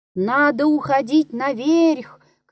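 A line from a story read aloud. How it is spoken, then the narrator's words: Shout. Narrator (Russian): крикнул Денис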